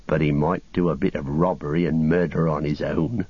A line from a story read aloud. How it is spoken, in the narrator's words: growled Sam